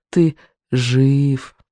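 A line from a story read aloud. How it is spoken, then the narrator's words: Weak, slurred wheeze. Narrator (Russian): прохрипел очень слабо и невнятно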